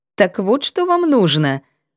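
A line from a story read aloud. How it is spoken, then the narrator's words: Mocking retort. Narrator (Russian): насмешливо вскинулась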